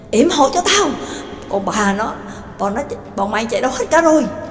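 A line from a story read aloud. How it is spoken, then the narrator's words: Panicked breathless shouting. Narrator (Vietnamese): Gonzan cuống cuồng sợ hãi, vừa chạy như bay vừa hét lớn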